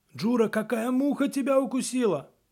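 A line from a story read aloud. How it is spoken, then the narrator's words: Sudden cry. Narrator (Russian): вдруг скрикнул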